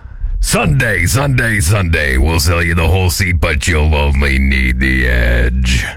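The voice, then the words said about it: Deep monster truck announcer voice. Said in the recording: “my monster truck voice ... Imagine your Adam's apple goes like down here.”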